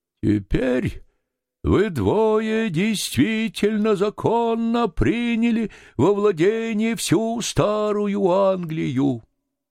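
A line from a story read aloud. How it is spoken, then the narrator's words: Sing-song voice. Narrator (Russian): певучим голосом начал Пек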